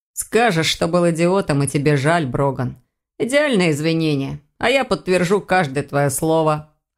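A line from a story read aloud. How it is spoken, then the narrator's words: Amused snort. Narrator (Russian): хмыкнул Элгар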